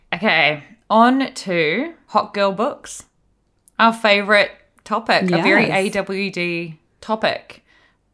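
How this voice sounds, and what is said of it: Faux British accent. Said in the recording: “my faux British accent”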